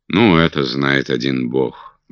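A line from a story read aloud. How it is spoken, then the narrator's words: Gloomy reply. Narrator (Russian): мрачно ответил Питер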